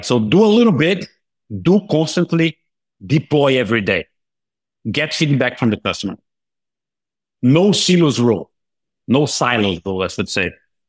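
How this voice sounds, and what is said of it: Brazilian-accented English. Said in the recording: “That's my Brazilian accent coming through.”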